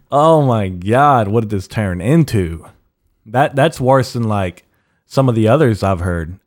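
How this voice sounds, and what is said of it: Usual voice. Nothing is said of it.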